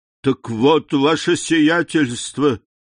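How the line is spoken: Exclamation. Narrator (Russian): воскликнул Бертуччо

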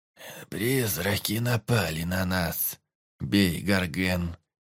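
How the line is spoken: Hoarse voice. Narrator (Russian): Хриплым голосом произнесла она

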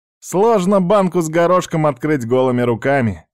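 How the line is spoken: Laughing. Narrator (Russian): рассмеялся Ючи

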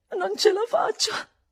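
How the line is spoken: Desperate sobbing. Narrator (Italian): singhiozzai disperatamente

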